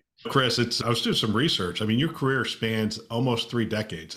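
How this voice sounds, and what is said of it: Voice sounds unwell. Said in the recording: “apologize for my voice. I'm a little under the weather”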